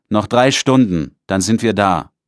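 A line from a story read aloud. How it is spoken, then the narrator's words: Calling out. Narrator (German): ruft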